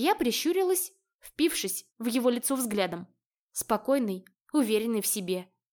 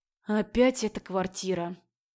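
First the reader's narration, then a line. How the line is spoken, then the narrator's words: Sighing. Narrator (Russian): вздохнул Андреас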